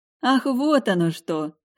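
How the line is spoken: Chuckling. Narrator (Russian): хохотнула

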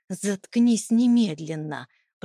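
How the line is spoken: Hissed through clenched teeth. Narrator (Russian): прошипел он сквозь зубы

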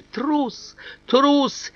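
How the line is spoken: Sobbing. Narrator (Russian): всхлипывает

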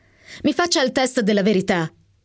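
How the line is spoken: Pleading. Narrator (Italian): implorai

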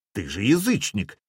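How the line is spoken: Angry exclamation. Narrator (Russian): сердито воскликнул Попик

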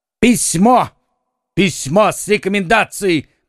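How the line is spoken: Shouting. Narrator (Russian): кричал Д'Артаньян

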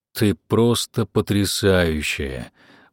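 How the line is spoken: Breathless exhale. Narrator (Russian): буквально выдохнул я

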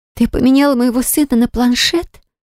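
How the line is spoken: Stunned, dumbfounded. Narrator (Russian): спросила она обалдевшим голосом

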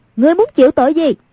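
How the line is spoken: Composed stern shout. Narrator (Vietnamese): Nhưng trên mặt vẫn không động thanh sắc, quát lên

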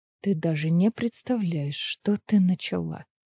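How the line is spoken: Whisper in ear. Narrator (Russian): прошептал ей на ухо

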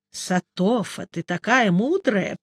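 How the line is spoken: Grumble. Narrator (Russian): проворчал Нуфлин

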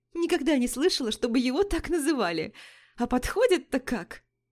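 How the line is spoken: Continuing after laughter. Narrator (Russian): Отсмеявшись, Вика продолжила

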